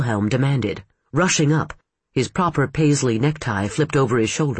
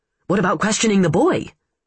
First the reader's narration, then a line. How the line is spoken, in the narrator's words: Wilhelm blurted